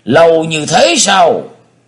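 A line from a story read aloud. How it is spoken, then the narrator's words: Exclaiming. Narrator (Vietnamese): Bác đại sĩ Nguyên kêu lên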